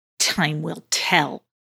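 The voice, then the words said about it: Disgruntled voice. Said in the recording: “in a disgruntled voice.”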